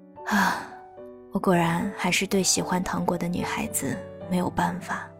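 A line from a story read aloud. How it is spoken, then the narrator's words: Sighing. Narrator (Chinese): 狼先生叹了口气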